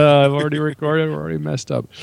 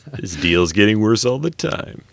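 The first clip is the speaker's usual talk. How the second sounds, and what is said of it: Imitates a film character's voice. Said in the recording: “I have to do my Lando impression”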